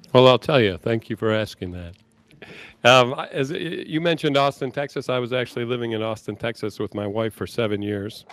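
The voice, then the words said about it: Slight Texas twang. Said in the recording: “The little Texas twang you have. ... we got a little twang going here.”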